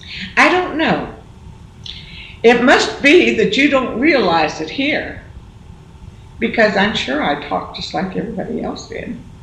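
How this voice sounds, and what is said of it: Slight Southern American accent. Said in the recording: “I can hear some southern.”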